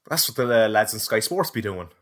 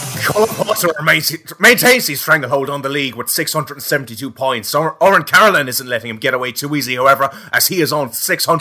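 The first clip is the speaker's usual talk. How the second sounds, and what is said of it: Shouting, very loud delivery. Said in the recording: “Why are you shouting? ... You're roaring into the microphone, man.”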